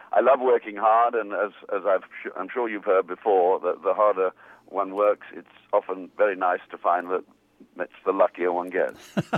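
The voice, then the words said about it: Wonderful voice, beautiful accent. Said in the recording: “this wonderful voice and that beautiful accent”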